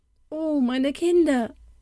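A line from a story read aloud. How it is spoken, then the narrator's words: Calling to children. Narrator (German): rief sie jetzt ihren zwei Kleinen zu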